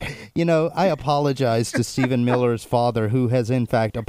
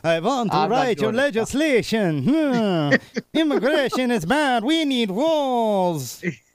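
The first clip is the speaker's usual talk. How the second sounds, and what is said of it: Bad Bulgarian accent. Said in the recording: “the bad Bulgarian accent”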